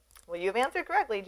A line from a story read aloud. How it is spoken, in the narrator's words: Jesus replied